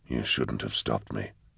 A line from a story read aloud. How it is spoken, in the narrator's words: said Eisenhorn quietly